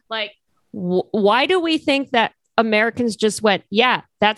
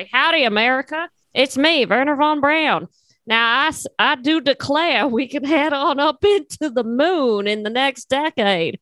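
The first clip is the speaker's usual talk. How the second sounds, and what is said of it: Put-on Texan accent. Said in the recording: “Why the fuck can't I do an accent? ... I'm just going to have him be like a Texan now.”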